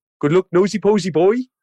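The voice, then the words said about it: Put-on Welsh accent. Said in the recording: “I did a Welsh accent. That's my Welsh, not bad.”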